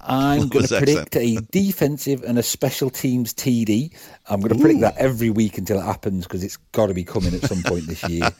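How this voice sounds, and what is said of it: Noticeable regional accent. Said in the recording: “Love his accent.”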